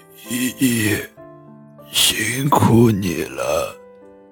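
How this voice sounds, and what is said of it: Low, hoarse voice. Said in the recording (Chinese): “用低沉沙哑的声音说道”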